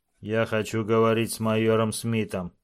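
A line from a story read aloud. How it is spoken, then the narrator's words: Cold, proud. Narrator (Russian): холодно и гордо произнес Дакота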